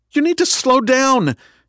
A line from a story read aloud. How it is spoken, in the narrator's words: Kendra cried